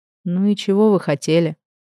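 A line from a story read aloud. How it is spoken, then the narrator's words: Weary question. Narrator (Russian): Устало поинтересовался Эдвард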